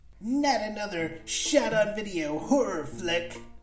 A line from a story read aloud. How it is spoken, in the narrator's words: Harry shouted at his projector screen